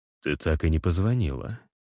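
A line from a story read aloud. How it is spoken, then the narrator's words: Whisper. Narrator (Russian): шепчу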